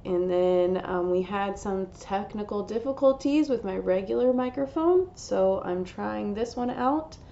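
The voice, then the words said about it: Strained, under-the-weather voice. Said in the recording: “my voice is a little bit under the weather... my voice decided to take a break... I apologize if I sound different”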